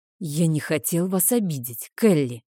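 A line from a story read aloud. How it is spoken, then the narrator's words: Conciliatory sigh. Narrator (Russian): примирительным тоном вздохнул он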